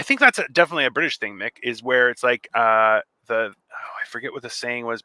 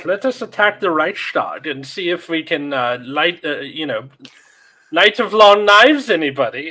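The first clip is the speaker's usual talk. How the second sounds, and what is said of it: Bad put-on German accent. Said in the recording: “my German accent's terrible. ... it's absolutely horrible.”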